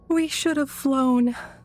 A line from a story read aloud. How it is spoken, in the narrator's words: Leah said and yawned